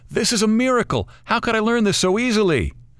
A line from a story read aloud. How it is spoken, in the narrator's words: yell up